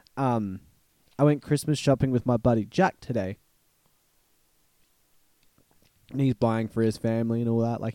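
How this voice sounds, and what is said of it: Rough, slightly sick-sounding voice. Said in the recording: “my voice is a bit messed up. I got a little bit sick this week”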